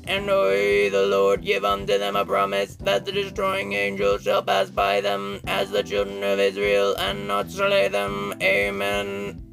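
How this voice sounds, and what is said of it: Robot voice. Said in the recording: “that wasn't my best robot voice”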